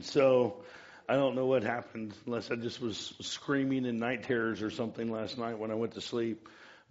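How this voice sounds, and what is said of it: Hoarse, worn-out voice. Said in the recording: “That's not a smoker's cough. That's a Willamette Valley in allergy season... my voice is a little bit shot”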